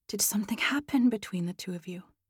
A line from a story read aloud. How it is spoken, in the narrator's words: her voice a whisper